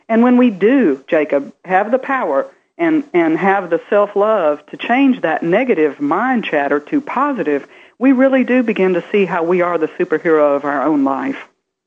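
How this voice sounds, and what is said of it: Southern US accent. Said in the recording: “you've noticed the accent. ... I grew up in the southern part of the United States, Texas ... So I'm from the South.”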